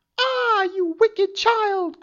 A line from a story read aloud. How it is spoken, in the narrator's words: cried the enchantress